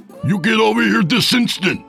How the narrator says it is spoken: he screamed

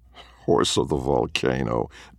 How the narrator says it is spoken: Ben muttered and laughed

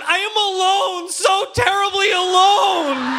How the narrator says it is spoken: I'd shout

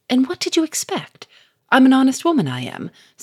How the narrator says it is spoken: said Victor sharply

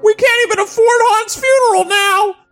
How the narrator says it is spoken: She screamed

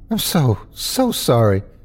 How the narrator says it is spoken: I panted heavily

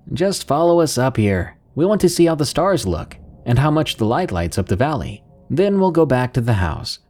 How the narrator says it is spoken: Carlos shouted

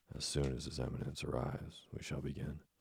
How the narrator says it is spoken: his voice was lost in a thunderous outburst of disapproval

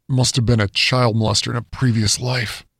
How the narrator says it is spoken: he muttered to himself

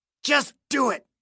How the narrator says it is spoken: Clayton hissed, in anticipation of agony

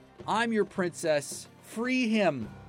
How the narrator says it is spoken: the girl cried

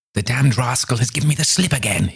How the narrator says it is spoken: he cried

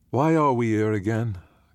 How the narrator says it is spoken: Cam asks in his soft, sleepy voice

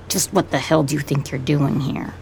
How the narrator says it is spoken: He says it flatly

